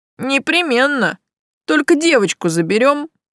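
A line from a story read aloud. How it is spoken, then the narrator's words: Smirking grunt. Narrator (Russian): хмыкнул Локи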